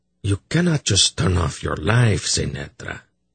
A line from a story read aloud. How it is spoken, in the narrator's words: he said gently